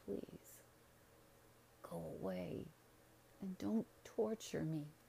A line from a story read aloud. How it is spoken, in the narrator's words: He kept muttering